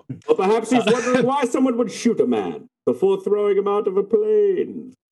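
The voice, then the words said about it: Impression of Bane. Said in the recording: “I really wanted to try to do an impression there ... That was pretty good.”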